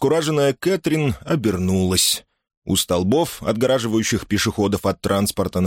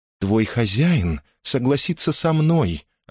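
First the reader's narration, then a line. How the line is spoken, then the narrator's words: Curt, sharp. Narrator (Russian): отрезала Кэт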